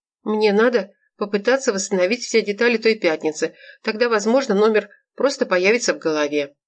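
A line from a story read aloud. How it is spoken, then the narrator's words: Trembling voice. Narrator (Russian): дрогнувшим голосом сообщила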